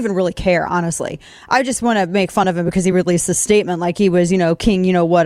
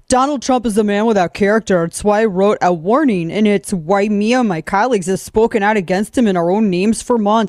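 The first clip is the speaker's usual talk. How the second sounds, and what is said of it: Mock Wisconsin accent. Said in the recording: “this Wisconsin accent”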